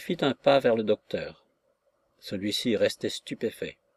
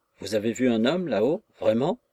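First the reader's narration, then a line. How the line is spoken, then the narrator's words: Perfectly natural question. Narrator (French): d'un ton parfaitement naturel que le docteur demanda à cet homme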